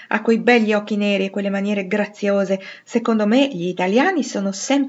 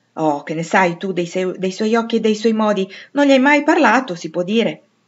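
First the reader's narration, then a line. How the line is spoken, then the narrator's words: Unsentimental exclamation. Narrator (Italian): esclamò Joe, che non era sentimentale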